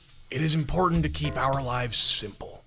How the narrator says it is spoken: he said

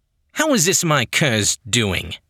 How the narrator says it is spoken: Yannick snapped

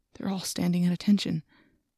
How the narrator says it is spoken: I whispered

